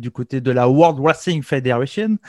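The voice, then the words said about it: Exaggerated English accent on name. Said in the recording (French): “avec mon super accent anglais”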